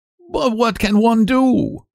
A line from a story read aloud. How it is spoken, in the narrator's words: he cried